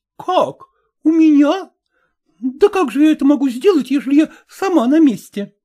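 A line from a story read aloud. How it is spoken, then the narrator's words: Exclamation. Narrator (Russian): воскликнула Марина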